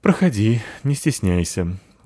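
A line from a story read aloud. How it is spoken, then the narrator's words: Sighing. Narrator (Russian): вздохнула капитанша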